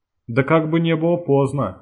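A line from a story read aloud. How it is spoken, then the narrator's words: Laughing. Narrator (Russian): рассмеялся научник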